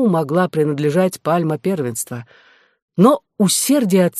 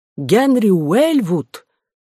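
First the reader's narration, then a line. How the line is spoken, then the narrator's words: Exclaiming. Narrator (Russian): суприор воскликнул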